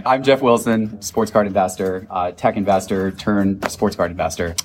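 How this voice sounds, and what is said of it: Strained voice, losing his voice. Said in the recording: “I've been losing my voice today.”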